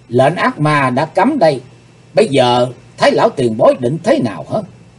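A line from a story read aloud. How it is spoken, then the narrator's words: Stern question. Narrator (Vietnamese): Hắc Phụng Hoàng nghiêm giọng hỏi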